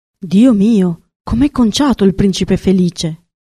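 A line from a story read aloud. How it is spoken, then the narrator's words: Exclaimed. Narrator (Italian): esclamò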